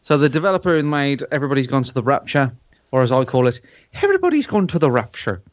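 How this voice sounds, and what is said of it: Usual voice. Nothing is said of it.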